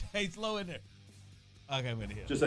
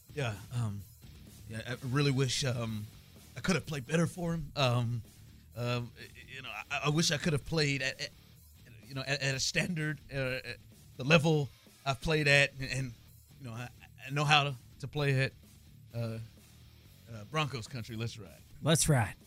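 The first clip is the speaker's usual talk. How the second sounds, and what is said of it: Low-voiced Russell Wilson impression. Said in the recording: “Do your impression ... his ... Was ... low. ... his was low.”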